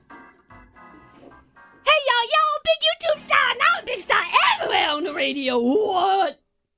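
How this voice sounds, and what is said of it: Character voice with an accent. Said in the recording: “The accent's throwing me.”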